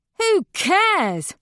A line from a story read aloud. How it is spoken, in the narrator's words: Harmony sneers